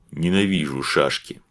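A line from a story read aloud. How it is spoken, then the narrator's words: Fat man grumbling. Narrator (Russian): буркнул толстый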